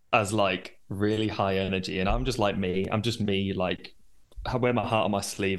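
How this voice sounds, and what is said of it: Northern English York accent. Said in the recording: “I am from York, hence the accent”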